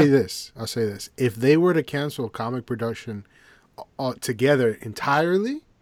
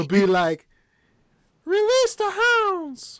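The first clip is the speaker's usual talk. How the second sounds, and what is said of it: Mickey Mouse cartoon voice. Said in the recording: “that's not that bad of a Mickey Mouse impersonation. I guess our time away, you've been working on impersonations.”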